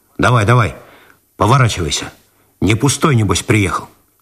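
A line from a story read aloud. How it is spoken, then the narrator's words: Rough. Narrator (Russian): Виталию показался неуместным просительный тон, и он грубо добавил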